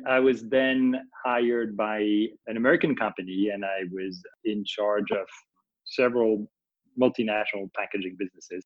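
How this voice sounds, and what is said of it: French accent. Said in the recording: “let me be clear, I am French. So this is a French accent.”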